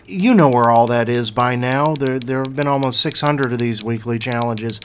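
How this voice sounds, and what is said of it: Strained, failing voice. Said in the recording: “Whoa, I'm losing my voice.”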